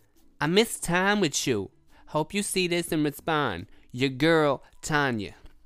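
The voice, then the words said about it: Reads message in put-on accent. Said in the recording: “the only reason I'm using that accent is because the way the the way that girl is spelled”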